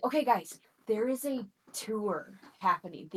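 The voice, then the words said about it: Whispering. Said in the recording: “I'm whispering down”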